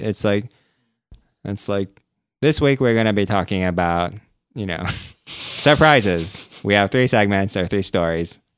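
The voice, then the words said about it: Poor imitation of another person's voice. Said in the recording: “That was our horrible Ira Glass impersonation.”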